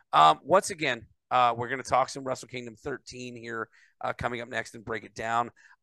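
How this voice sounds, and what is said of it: Bad, unrecovered worn-out voice. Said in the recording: “apologize for my voice ... I've still not recovered my voice ... my bad voice”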